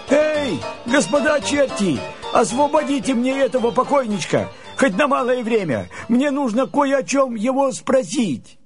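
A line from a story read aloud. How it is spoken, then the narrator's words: Shouting. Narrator (Russian): Андрей закричал чертям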